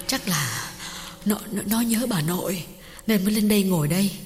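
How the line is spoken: Breathless. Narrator (Vietnamese): Hương thở hổn hển bảo chồng

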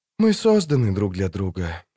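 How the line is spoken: Whispered. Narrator (Russian): шепнула она

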